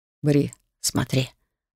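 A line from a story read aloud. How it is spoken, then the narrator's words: Whisper. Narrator (Russian): прошептал Хантер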